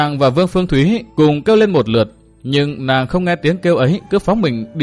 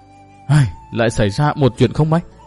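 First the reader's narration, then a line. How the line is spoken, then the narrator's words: Sighing. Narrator (Vietnamese): Từ Mã Minh thở dài nói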